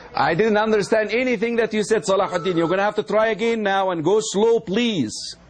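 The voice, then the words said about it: Speaks with a noticeable accent. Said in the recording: “I have an accent, remember?”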